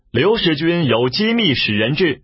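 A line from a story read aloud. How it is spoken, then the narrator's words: Calling out. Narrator (Chinese): 布到城门边叫道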